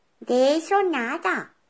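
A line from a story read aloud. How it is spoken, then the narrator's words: Hens and lambs shouting. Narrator (Spanish): gritaron las gallinas y los corderos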